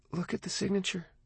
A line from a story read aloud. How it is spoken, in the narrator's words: she said quietly